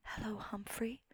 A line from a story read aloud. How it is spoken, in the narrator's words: she whispers